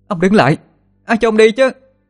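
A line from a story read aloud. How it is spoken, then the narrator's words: Loud shout. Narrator (Vietnamese): Thiên An hét to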